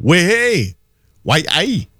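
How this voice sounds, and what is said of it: Imitated Geordie accent. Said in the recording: “the Geordie accent”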